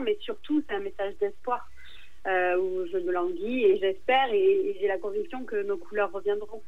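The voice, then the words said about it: Provençal southern French accent. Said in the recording (French): “avec ton accent, tu vas nous mettre du soleil sur Angoulême ... tu parles un petit peu comme ça ... accents provençaux”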